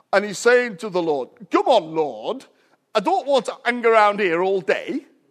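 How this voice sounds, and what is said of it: Imitated broad Yorkshire accent. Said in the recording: “you would have big difficulty with his Yorkshire accent ... That's how they speak, it's very strange.”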